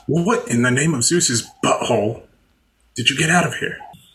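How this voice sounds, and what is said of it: Sean Connery impression. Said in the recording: “doing all of Nicolas Cage's lines and Sean Connery's accent”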